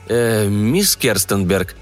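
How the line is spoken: Mumbling. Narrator (Russian): промямлил Блейк

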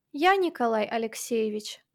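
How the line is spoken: Plain. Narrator (Russian): ответила она

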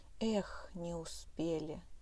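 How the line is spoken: Dejected voice. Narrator (Russian): упавшим голосом сказал Барсик

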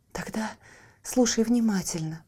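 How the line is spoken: Fairy's whisper. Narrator (Russian): прошептала фея

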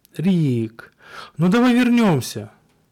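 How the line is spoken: Moaning, vainly hopeful. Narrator (Russian): Простонала она в напрасной надежде

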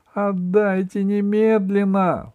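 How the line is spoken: Shout. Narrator (Russian): закричала Алиса

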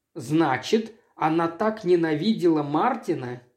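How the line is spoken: Plain. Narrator (Russian): сказал я

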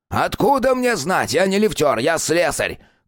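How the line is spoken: Shouting. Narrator (Russian): крикнул Виктор Палыч

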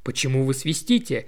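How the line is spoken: Sharp inquiry. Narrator (Russian): резко осведомился он

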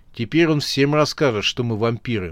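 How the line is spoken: Gloomy remark. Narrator (Russian): мрачно заметил пастор

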